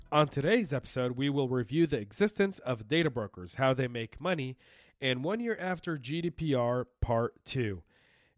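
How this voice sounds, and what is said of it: Raspy, sick-sounding voice. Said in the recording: “apologize for my voice. I have been sick for the last 3-4 days ... I've been trying to get my voice back ... if my voice gets a little bit raspy”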